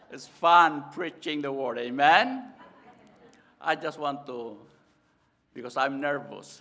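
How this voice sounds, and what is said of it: Filipino-accented English. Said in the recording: “Please bear with me because of my accent. In the Philippines, we have so many dialects.”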